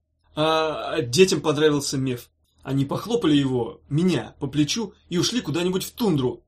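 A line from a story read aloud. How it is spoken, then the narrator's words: Hurried yelling. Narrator (Russian): торопливо завопил он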